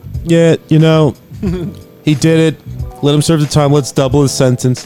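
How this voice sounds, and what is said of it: Imitates another person's voice. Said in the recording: “terrible Trump impression”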